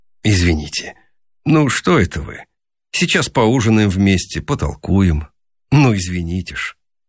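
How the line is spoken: Embarrassed. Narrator (Russian): Рогов смущенно сказал

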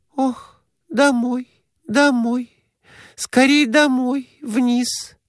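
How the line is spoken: Whispered. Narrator (Russian): прошептала она, наконец

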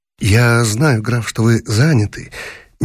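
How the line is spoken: Soft voice. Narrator (Russian): мягким голосом сказал гость

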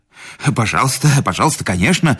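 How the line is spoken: Hurried mumble. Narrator (Russian): забормотал Седловой

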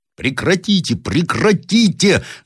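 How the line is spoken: Shouting in French. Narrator (Russian): закричал я по-французски

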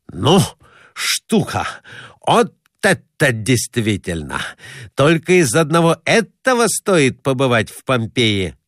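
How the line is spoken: Shouting. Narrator (Russian): кричал Граблин

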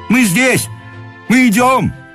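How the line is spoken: Official shouting. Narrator (Russian): закричал чиновник

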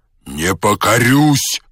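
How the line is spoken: Menacing shout. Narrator (Russian): закричал казак грозно

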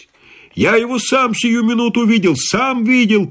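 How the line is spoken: Shouting officer. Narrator (Russian): кричал пристав

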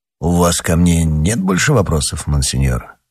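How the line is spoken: Plain. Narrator (Russian): спросил Рашфор

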